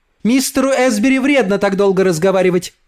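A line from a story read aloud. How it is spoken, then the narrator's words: Shouted. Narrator (Russian): крикнула она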